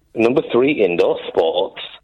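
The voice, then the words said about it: Sultry, suggestive voice. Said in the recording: “You said that in a sex voice.”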